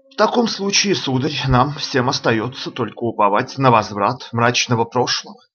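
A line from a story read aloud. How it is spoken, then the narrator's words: Plain. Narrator (Russian): сказал шевалье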